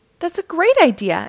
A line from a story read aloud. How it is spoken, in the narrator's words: exclaimed Mr